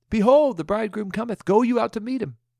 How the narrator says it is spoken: cried from their rooftops

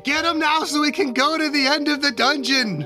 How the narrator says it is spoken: scream

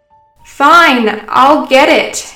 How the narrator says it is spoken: yelled Grace from her room

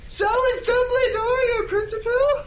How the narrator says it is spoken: I shouted

